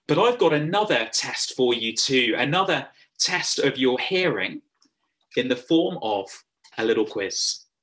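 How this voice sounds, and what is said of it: English accent. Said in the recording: “my funny English accent.”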